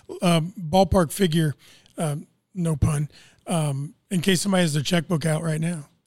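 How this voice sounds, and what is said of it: Strained, fading voice. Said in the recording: “excuse me, I'm losing my voice”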